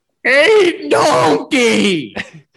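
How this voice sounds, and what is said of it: Chris Farley voice as Shrek. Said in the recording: “do you do an amazing Farley voice? Do you know any lines from Shrek that you can try out?”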